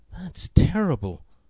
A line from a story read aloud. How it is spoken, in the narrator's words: gasped Dave